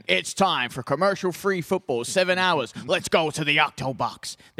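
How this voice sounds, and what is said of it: Poor imitation of another person's voice. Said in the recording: “that was a terrible impression ... My voice weakened ever so slightly”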